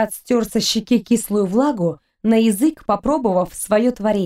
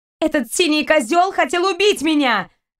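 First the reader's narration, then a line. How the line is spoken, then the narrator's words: Shouted. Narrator (Russian): выкрикнула Кристина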